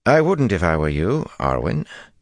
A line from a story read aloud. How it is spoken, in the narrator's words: Gawain said dryly